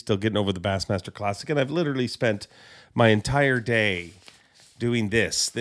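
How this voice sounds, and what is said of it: Slightly raspy voice. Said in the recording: “I'm a little raspy ... I'm a little raspy”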